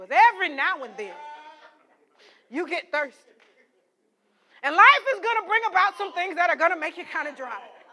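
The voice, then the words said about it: Preacher-style sermon voice. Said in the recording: “I'm going to my preacher voice.”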